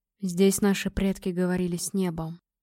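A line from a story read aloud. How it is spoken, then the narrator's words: Whisper. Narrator (Russian): прошептал скалолом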